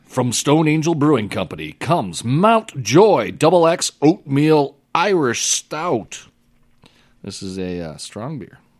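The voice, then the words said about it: Announcer-style radio voice. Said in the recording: “Can I use my radio voice? ... Yes, please. Make it more interesting.”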